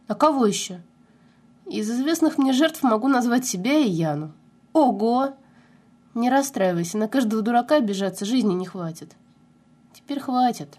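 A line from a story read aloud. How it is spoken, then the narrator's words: Sad, smiling. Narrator (Russian): Грустно улыбнулась Соня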